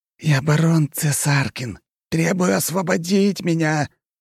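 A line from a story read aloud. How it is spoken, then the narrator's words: Trembling shout, young man. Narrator (Russian): дрожащим голосом выкрикнул парень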